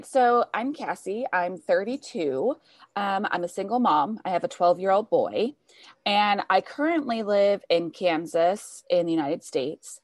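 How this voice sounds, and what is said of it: American accent. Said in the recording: “you do sound more American”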